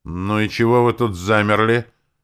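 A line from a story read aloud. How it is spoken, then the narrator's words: Stern, menacing question. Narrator (Russian): Грозно сведя брови, поинтересовался подошедший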